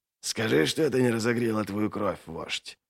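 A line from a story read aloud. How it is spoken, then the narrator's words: Whispered. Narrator (Russian): прошептал Доу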